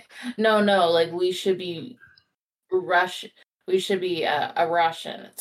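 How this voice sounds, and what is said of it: Put-on Russian accent. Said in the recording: “Sorry, it's my accent. ... Your Russian accent.”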